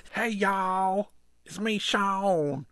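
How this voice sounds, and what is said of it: Exaggerated fake Southern accent. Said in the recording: “coming at you with my totally accurate southern accent... your horrible southern accent”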